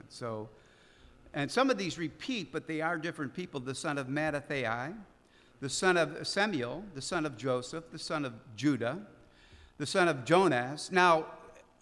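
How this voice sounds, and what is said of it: Chicago accent. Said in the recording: “I don't have that Hebrew accent. I have the Chicago accent.”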